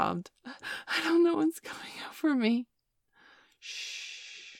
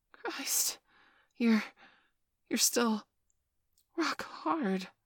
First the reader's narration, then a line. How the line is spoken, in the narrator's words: I gasped